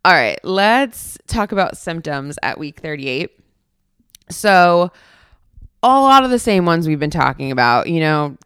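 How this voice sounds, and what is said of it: Hoarse, tired voice. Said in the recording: “my voice is a little hoarse this week. I think you can tell.”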